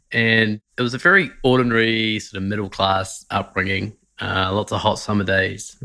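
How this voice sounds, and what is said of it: New Zealand accent. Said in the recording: “I grew up in New Zealand, as you can tell by my weird accent”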